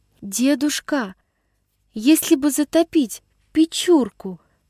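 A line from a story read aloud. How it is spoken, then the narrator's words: Girl's timid hesitant voice. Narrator (Russian): Вдруг нерешительным, робким голосом осведомилась девочка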